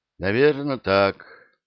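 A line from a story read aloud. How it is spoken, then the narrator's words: Glum agreement. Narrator (Russian): уныло согласился Скоморох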